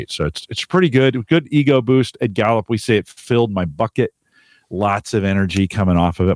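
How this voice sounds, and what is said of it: Slightly scratchy voice. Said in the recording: “My voice is still a little scratchy”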